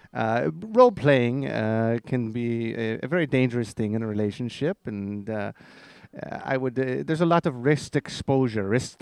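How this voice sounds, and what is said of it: Strange put-on foreign accent. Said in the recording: “You have a strange accent. Are you from Germany or Norwegian?”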